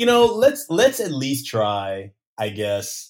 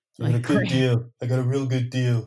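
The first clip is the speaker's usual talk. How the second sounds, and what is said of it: Imitates another person's voice. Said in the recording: “I got to work my work on my impersonation.”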